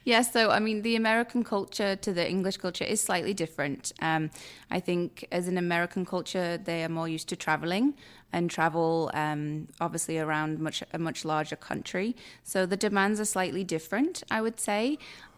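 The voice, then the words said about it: English accent. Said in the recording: “with your accent... that's the beautiful thing about the English”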